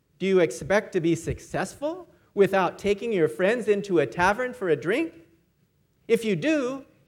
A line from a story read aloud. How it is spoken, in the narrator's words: he said with a cynical laugh